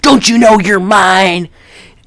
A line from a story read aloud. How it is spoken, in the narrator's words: Billy's yelling at her